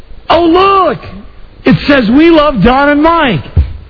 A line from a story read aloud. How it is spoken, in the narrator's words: Frida says real loudly, she goes